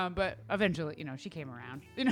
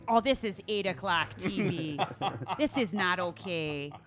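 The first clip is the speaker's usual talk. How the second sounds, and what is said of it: Imitated Wisconsin accent. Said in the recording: “in her Wisconsin accent”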